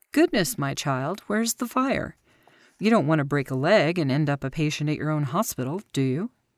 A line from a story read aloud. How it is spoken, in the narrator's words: he chuckled in an affable manner